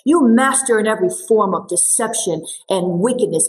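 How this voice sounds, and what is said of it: Very stern voice. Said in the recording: “I imagine he said it in a very stern voice. ... I said it some way like this.”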